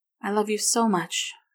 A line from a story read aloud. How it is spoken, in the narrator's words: she sighed